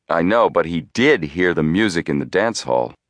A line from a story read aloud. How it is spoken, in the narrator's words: Joe chuckled